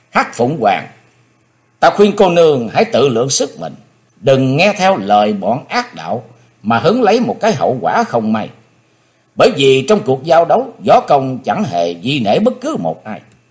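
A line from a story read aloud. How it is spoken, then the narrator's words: Stern shout. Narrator (Vietnamese): Chí Tôn trầm nghĩ quát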